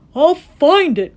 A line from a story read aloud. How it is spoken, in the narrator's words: cried Horton